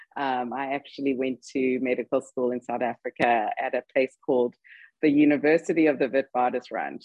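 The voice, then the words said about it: South African-sounding English accent. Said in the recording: “I will disabuse your listeners of the fact that I'm actually South African, because everybody by now is wondering where the accent is from.”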